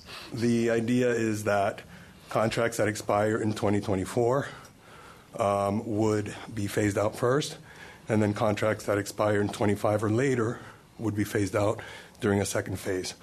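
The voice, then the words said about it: Strained, fading voice. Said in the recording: “I'm losing my voice a little bit too”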